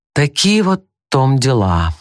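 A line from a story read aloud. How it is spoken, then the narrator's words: With a sigh. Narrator (Russian): вздохнув, начал он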